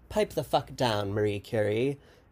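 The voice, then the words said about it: Weak British accent imitation. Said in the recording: “I didn't do a very good British accent there”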